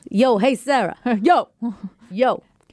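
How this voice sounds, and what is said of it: Put-on New York accent. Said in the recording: “practice your New York accent”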